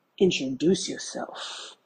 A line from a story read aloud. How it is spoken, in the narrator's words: He said in a sexy voice